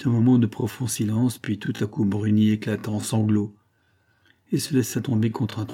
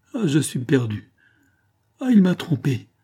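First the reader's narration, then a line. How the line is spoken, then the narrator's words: Distraught cry behind hands. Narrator (French): s'écria-t-elle en croisant ses mains sur sa figure bouleversée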